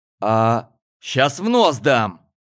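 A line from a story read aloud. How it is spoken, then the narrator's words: Barked. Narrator (Russian): рявкнул Гоша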